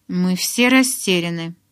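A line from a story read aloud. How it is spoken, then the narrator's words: Grumbling. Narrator (Russian): проворчал Эммет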